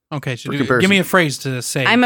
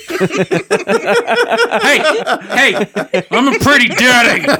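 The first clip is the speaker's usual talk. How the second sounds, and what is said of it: Put-on stern dad voice. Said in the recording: “my dad voice”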